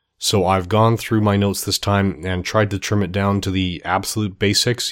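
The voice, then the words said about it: Sick, strained voice. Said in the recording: “I'm a little under the weather. I'm not sure how my voice is going to hold up”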